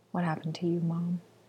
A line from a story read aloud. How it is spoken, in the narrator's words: whispered